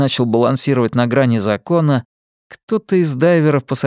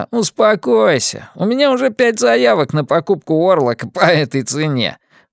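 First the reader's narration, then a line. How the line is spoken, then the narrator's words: Pleased cackling maniac. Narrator (Russian): Маньяк довольно захохотал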